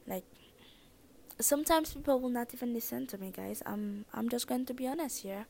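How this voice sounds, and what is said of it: Thick accent. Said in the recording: “I have a very thick accent”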